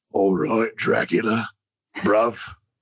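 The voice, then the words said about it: Jason Statham Cockney accent impression. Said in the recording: “what about like a Jason Statham accent?”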